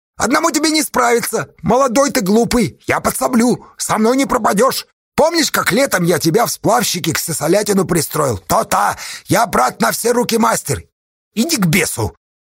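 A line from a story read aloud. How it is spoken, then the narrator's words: Annoyed snap. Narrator (Russian): В досаде огрызнулся Асташа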